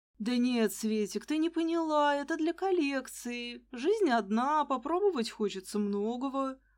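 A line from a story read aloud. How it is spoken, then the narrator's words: Languid purr. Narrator (Russian): промурлыкала я томным голоском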